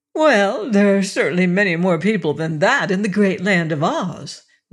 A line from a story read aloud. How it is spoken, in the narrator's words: laughed Sally